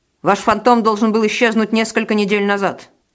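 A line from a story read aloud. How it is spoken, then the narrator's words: Accusing declaration. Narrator (Russian): обвинительным тоном заявил мне Валентин Михайлович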